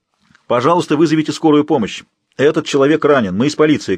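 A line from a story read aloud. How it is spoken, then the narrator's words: Shouting. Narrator (Russian): крикнул Боб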